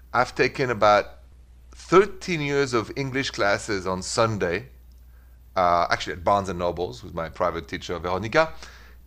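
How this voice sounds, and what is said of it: French-accented English. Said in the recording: “The accent, c'est français. French. Easy to recognize, right? ... My pronunciation has improved a little bit. The accent, not at all. ... So thank you for bearing the French accent.”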